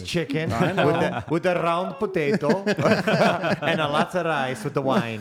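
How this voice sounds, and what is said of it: Put-on Italian accent. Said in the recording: “I was making an Italian accent.”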